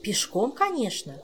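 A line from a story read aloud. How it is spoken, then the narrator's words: Indignant exclamation. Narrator (Russian): с негодованием воскликнула Кира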